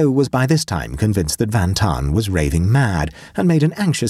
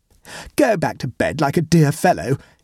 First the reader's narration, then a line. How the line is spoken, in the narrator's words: he pleaded